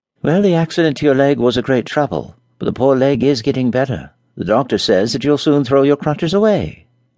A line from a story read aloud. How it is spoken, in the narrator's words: observed Mary cheerfully